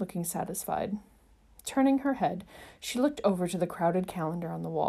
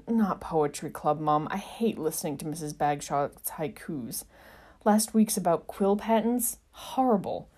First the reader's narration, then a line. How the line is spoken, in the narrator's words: groaned and said